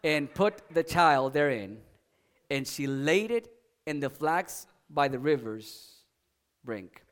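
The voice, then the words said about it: Speaks with a noticeable foreign accent. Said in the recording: “since I have an accent ... it's just my accent”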